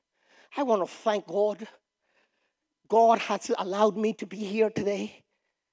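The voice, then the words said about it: Put-on African accent. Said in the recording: “in her African accent”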